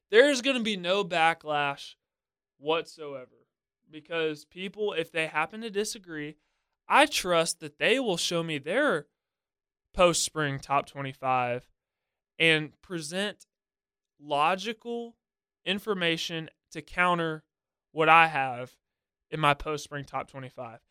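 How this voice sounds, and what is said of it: Sarcastic tone. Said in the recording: “If you can't tell in my voice, I'm being sarcastic.”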